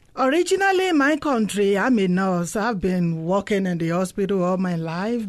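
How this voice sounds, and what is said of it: African accent. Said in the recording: “I'm originally from Africa. You can tell by my accent”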